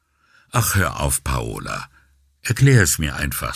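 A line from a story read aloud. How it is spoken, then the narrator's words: Suddenly weary, not joking. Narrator (German): sagte er plötzlich müde und nicht in der Stimmung für Scherze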